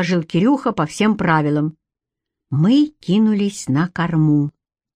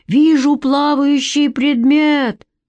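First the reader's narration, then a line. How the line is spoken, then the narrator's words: Loud shout. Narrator (Russian): громко крикнул Кирюха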